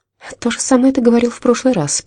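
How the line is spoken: Female mutter. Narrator (Russian): пробормотала Джейн

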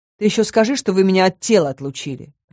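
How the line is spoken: Grumble. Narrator (Russian): проворчала я

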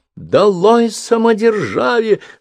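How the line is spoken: Girl screaming, voice breaking. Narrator (Russian): срывающимся голосом вопила девица

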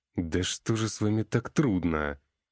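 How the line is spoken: Groaned. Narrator (Russian): простонал я

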